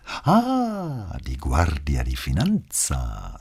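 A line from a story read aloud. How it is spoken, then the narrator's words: Delighted cooing woman. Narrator (German): säuselte sie, ohne im Mindesten das Entzücken zu verbergen, das ihr diese Bitte bereitete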